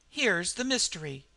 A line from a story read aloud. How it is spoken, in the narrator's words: I cried